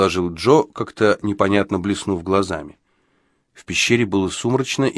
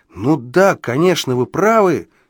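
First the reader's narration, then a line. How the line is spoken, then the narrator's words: Realizing exclamation. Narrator (Russian): воскликнул я, сообразив, о чем он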